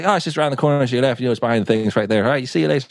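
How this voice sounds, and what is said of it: Put-on Irish accent. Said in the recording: “that's my terrible Irish accent ... Yeah, it's pretty good.”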